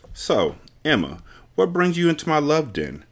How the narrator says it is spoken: Bonnie asked in a playful tone, but Emma could tell she was genuinely curious

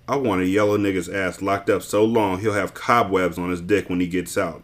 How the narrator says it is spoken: Boots answered

